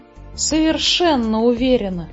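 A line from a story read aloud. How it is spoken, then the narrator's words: Breathed out. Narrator (Russian): выдохнула Фрекин Снорк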